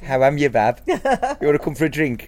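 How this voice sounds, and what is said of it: Put-on Birmingham Brummie accent. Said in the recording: “the Brummy accent ... I should try it out”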